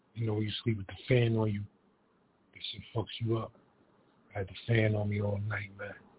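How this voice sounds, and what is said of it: Rough, damaged voice. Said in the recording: “I got a part of my voice. My voice is fucked up. ... So my voice is fucked up, y'all, so bear with me.”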